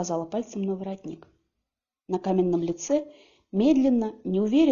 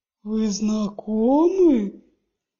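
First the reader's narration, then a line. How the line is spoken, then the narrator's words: Booming, drawn-out. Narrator (Russian): прогремел он, растягивая слова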